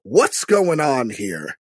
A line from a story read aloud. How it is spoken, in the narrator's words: Pruitt, formerly Pruitt, just says, and just snaps